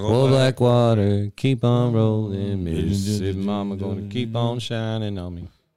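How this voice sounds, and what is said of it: Sings in a put-on deep voice. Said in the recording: “Is that your deep voice? You got that deep voice?”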